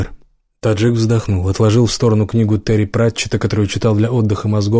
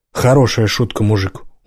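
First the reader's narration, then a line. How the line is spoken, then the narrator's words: Tired sigh. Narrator (Russian): Убер устало вздохнул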